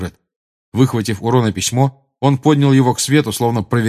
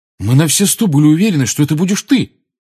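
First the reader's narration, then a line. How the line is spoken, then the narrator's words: Exclaimed, accusing tone. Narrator (Russian): воскликнул Фред таким тоном, словно Гарри в чем-то его обманул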